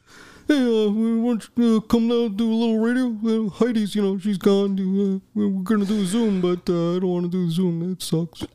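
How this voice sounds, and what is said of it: Good impression of another speaker's voice. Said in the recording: “What do I sound like? ... when someone does a good impression of your voice”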